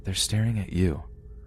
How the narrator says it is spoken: whispered

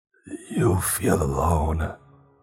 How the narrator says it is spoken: she said, but her voice was all wrong

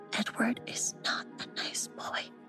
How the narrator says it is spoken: she whispered in a grave voice

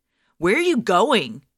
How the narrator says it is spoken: he shouted over the din of the mall

